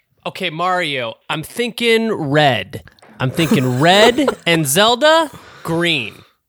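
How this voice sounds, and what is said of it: Impression of Miyamoto. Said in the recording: “do an impression of Miyamoto making decisions”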